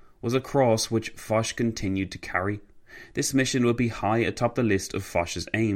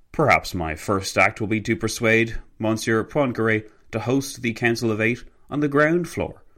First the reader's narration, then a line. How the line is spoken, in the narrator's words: Foch exclaimed